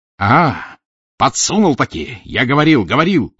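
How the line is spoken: Roar. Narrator (Russian): взревел Разумихин

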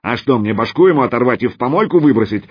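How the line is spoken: Elephant's bark. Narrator (Russian): рявкнул слон

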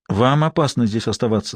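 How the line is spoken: Plain. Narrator (Russian): сказала Сиена

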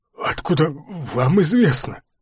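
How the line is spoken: Timid babble. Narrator (Russian): пролепетал Ртищев

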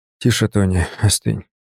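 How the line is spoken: Calm, almost weary. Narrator (Russian): сказал я спокойно, почти устало

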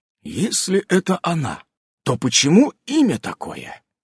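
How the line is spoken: Quiet question. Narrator (Russian): тихо спросил Иннокентий

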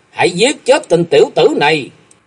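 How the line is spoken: Loud shout. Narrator (Vietnamese): Hắn quát to lên

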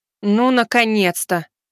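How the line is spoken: Irritated. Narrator (Russian): раздраженно проговорила Элиза

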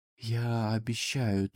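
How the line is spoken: Breathless exhale. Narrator (Russian): только и выдохнул

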